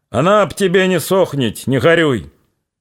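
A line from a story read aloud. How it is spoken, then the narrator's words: Shouting. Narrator (Russian): Поворачиваясь на скрипящей подушке седла, крикнул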